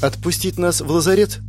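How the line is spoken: Timid suggestion. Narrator (Russian): робко предложила Криста

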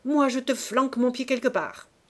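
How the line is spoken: Barking angrily. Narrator (French): Nez à nez, les crocs dehors, ils aboyaient

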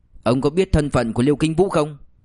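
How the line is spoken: Cold, contemptuous, angry. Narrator (Vietnamese): trong sự khinh miệt còn chứa vẻ tức giận, lạnh lùng nói

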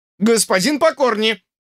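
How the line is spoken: Louder shout. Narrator (Russian): Он крикнул громче

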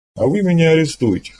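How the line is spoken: Commander's wry grunt. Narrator (Russian): хмыкнул командор

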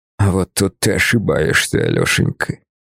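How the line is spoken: Hissed. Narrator (Russian): Прошипел он

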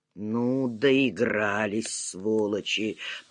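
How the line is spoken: Muttering. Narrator (Russian): пробормотал Глеб

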